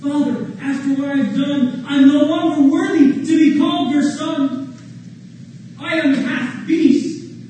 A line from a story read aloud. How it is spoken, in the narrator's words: sobbed the prince